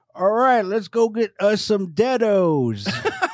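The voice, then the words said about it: Imitates a ridiculous movie accent. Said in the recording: “Jeff Bridges has a ridiculous accent in that movie”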